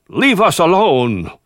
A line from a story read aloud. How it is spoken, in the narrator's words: he cried out